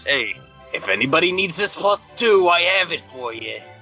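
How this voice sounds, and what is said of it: Brooklyn accent. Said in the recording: “Oh, Brooklyn. ... Is that your native accent? ... He usually suppresses it to sound sophisticated, but it totally is.”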